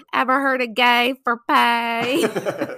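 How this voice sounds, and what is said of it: Leslie Jordan's high-pitched Southern voice. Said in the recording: “in his little like cute little Southern high pitched accent ... his little accent”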